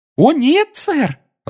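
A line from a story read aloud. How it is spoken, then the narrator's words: Cheerful. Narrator (Russian): радостно сообщил эльф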